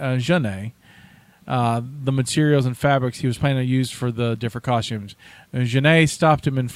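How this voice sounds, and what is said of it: Usual voice. Nothing is said of it.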